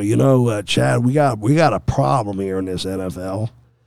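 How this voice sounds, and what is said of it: Slight put-on Southern drawl. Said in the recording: “are you from San Diego or from Texas? With that little southern drawl you put on the first part of the question”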